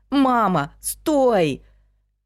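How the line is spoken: Breathless shout. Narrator (Russian): Он задохнулся, но сделал еще попытку и крикнул

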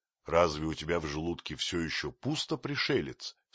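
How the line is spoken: Plain. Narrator (Russian): спросил Маугли

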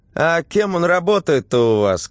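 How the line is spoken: Shouted after. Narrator (Russian): крикнула соседка ей вслед

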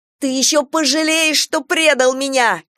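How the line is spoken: Shouting. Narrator (Russian): кричала Полина

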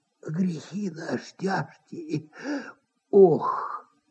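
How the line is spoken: Sighing near-whisper. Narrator (Russian): Опять кто-то вздохнул и даже как будто прошептал

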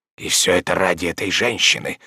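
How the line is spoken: Old man whispering. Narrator (Russian): шептал старик

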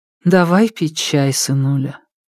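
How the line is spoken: Even, steady voice. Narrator (Russian): ровным голосом сказала мама

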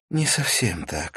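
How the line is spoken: Sigh. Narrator (Russian): вздохнула

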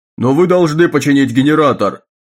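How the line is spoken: Shout. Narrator (Russian): крикнул Феррис

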